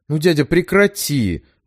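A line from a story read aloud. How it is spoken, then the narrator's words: Pleading. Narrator (Russian): взмолилась Нера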